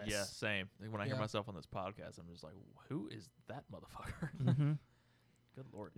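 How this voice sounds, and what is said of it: Heavy Southern US accent. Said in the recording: “I have a really, apparently, heavy southern accent. ... It's there.”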